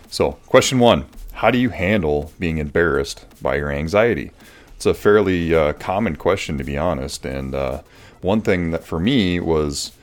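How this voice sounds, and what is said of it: Congested, deep, nasal voice from cold. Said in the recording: “I have a little bit of a cold, so I sound a little different. ... I am even more bassy than I normally am ... not sound too nasally”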